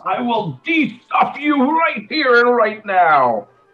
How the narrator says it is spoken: Luth yells

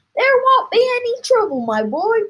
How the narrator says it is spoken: cried Mr

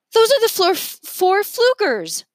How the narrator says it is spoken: Remy yelled

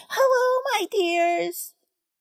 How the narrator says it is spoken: Emily Esther called out, too

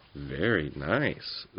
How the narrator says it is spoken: said Fifo hastily

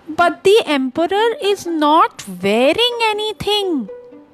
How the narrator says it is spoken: the child shouted

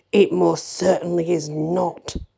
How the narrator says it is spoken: snapped Santa

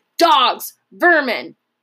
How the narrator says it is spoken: Porcus shouted above the sudden uproar

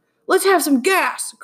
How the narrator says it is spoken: cried Tom roughly

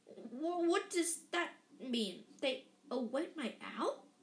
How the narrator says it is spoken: he stammered

